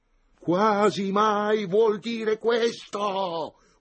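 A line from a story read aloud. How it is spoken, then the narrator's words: Sudden full-throated yell. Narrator (Italian): urlò Antonio di scatto con quanta voce aveva in gola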